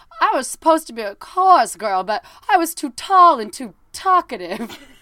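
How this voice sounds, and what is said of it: Put-on lockjaw Long Island accent. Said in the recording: “That's a beautiful lockjaw Long Island accent.”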